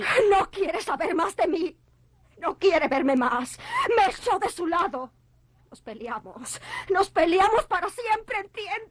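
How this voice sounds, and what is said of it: Shouting while crying. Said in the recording (Spanish): “¡No llores! ¡No grites!”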